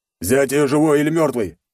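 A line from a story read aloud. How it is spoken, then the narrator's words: Barked order. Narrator (Russian): рявкнул командир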